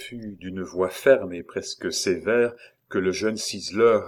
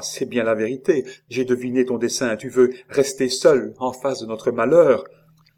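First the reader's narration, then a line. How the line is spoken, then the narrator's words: Exclaiming. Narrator (French): s'écria-t-elle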